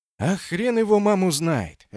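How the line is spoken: Sighing. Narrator (Russian): ответил Федя, вздохнув

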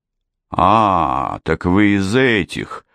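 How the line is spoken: Knowing drawl. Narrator (Russian): понимающе протянул инспектор

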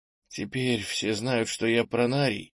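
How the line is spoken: Quiet question. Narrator (Russian): тихо спросил

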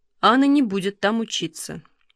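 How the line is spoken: Calm. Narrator (Russian): спокойно сказал Алексей

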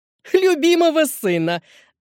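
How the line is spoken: Gloating laugh. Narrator (Russian): Мадемуазель злорадно рассмеялась

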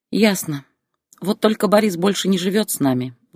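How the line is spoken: Sighing. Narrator (Russian): вздохнула Зоя

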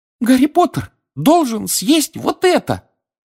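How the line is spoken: Squeaky elf. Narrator (Russian): пискнул эльф

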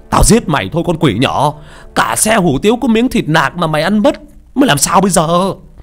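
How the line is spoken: Thunderous angry shout. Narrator (Vietnamese): Thằng cha chủ tiệm y hét như sấm nổ

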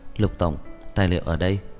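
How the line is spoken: Quiet. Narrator (Vietnamese): Thư ký đứng bên cạnh không nhịn được, nhỏ giọng

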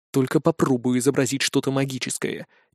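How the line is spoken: Quiet words into ear. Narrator (Russian): тихо произнес я туда, где должно было располагаться ухо

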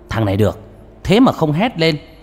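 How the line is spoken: Hearty laughing speech. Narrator (Vietnamese): Ông mổ não cười to một tiếng

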